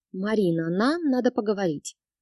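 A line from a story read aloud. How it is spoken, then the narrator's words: Meaningful drawl after sigh. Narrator (Russian): Вздохнув, протянула многозначительно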